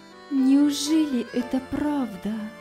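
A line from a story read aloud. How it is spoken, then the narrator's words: Trembling voice. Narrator (Russian): проговорила она дрожащим голосом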